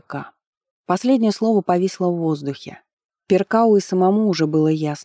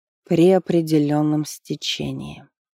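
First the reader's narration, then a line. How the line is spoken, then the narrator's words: Sighing. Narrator (Russian): вздохнул бальзамировщик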